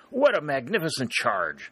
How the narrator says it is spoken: Sherburne exclaim

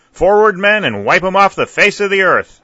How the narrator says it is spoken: a great voice cried

